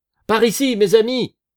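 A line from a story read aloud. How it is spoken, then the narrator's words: Shouted. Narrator (French): cria Marius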